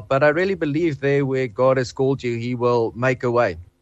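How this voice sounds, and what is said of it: Noticeable foreign accent. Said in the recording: “people has told me that my accent helps me ... this guy's accent sounds very interesting”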